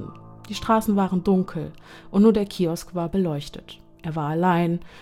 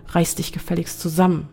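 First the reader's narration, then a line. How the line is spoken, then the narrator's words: Stern self-admonishing voice. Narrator (German): ermahnte sich Zane mit strenger Stimme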